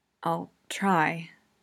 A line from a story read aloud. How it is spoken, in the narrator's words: he whispers